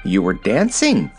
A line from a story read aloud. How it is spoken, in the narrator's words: remarked Dorothy in a puzzled tone of voice